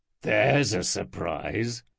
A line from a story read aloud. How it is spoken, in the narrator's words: muttered Domitus